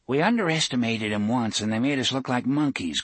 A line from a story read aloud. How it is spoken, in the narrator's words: Clay had said